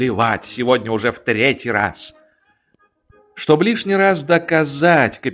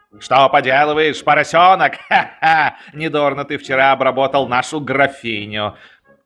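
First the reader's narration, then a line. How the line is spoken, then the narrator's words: Loud laughter. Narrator (Russian): громко захохотал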